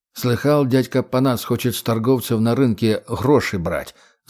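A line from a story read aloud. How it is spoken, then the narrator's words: Plain. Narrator (Russian): спросил Сергей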